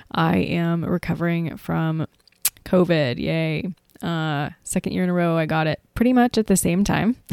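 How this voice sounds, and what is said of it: Stuffy, congested voice. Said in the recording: “Excuse my voice ... my voice might sound a little bit stuffy and strange to you”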